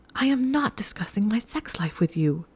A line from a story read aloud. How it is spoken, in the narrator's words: she hissed